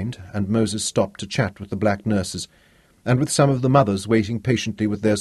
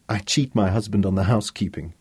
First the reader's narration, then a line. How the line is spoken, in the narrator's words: Tara laughed, dismissing it lightly